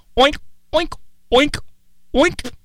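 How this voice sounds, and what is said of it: Imitates a pig oinking. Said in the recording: “I think I can do a pretty good pig impression ... I have a pretty good pig impression ... the bar is pretty low here”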